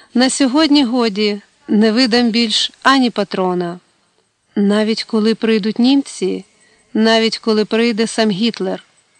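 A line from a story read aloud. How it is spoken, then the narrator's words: Exclaimed. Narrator (Ukrainian): ротмістр вигукнув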